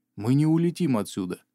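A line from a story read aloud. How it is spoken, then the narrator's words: Said with a sigh. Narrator (Russian): вздохнув, произнес Икар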